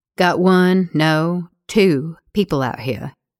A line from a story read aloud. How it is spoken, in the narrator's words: Gabe says